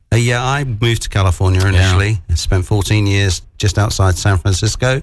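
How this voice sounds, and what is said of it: British accent. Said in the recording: “I love the accent ... I'm from the UK originally.”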